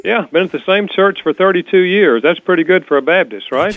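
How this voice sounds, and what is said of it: North Carolina accent. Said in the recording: “you have a lovely accent ... North Carolina”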